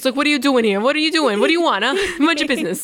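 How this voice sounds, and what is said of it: Fake Brooklyn accent. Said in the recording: “I get this like fake like Brooklyn accent”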